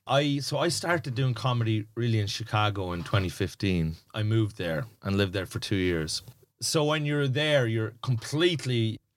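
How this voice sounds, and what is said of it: Irish accent. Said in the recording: “do you think when you speak English, you have an accent? ... the Irish accent”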